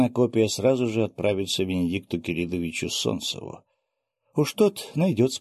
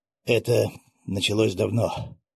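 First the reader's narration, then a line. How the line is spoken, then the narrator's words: Sighing. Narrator (Russian): вздохнул Дмитрий Васильевич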